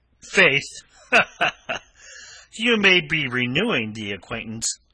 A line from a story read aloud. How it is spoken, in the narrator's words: laughed unpleasantly